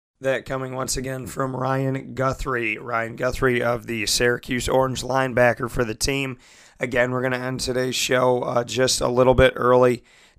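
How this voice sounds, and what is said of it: Strained voice from sore throat. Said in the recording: “Due to my throat, I have had some issues since losing my voice a week ago, and I'm in pain today”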